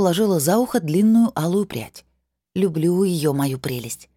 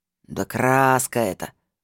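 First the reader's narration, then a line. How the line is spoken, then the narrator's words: Snort. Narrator (Russian): фыркнул лохматый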